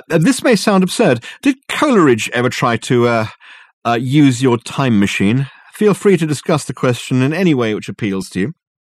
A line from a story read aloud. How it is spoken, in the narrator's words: called out Dirk